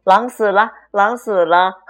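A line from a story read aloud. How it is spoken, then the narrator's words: Young goats shouting happily. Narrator (Chinese): 七只小山羊高兴的叫道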